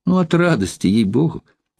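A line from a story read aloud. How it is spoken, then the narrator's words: Laughing. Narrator (Russian): засмеялась Вера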